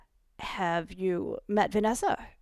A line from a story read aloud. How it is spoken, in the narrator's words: he sputtered, trying to recover